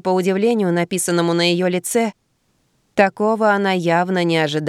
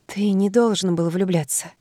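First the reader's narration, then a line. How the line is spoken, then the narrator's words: Whisper. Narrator (Russian): прошептала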